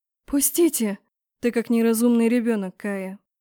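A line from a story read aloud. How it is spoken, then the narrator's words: Calm, authoritative. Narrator (Russian): Спокойно проговорил ректор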